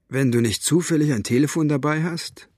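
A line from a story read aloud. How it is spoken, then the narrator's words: Plain. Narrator (German): sagte Mo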